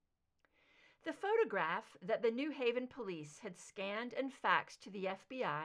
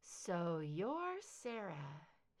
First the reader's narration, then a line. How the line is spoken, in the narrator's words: she murmured to the photograph